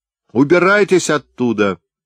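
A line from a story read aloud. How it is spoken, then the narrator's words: Shouting. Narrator (Russian): закричал он в окошко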